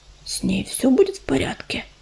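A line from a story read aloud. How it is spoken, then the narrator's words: Quiet question. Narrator (Russian): тихо спросила огнезвезда ежевика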